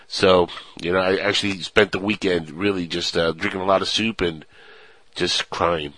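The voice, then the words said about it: Sick, under-the-weather voice. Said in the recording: “I don't know if you could tell by my voice, but I'm still a little bit sick”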